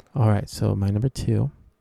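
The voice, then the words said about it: Speaking very softly. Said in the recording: “Why are you talking so softly?”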